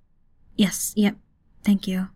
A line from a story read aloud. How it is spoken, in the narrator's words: Lookout said, her voice a mite quieter